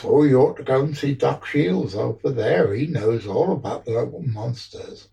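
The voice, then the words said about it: Put-on Devonshire accent. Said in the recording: “that, if anybody knows, is a Devonshire accent, not a Cornish accent”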